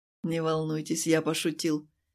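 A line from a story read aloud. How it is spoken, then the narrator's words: Soft. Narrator (Russian): мягко сказал он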